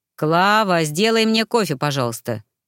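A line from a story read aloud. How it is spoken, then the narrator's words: Tired voice over intercom. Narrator (Russian): вдруг ожил селектор уставшим голосом Власова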